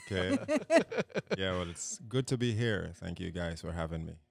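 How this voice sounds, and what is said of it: Jamaican accent. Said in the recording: “that little Jamaican accent”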